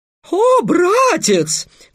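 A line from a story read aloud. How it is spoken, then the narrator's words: Exclamation. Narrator (Russian): воскликнул Песя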